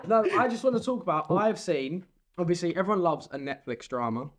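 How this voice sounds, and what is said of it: Essex accent. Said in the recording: “I haven't lost my accent now. ... Your Essex is coming out now.”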